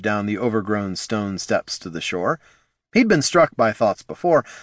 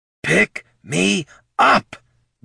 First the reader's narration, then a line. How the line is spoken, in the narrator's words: Benny snarled in Flynn's mind